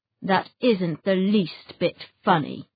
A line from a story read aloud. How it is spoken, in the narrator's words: snarled Mr